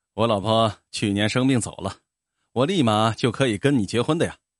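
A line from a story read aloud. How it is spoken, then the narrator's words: Cheeky grinning. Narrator (Chinese): 阿发 嬉皮笑脸的说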